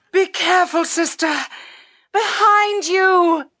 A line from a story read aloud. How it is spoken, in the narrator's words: Ruta Skadi cried out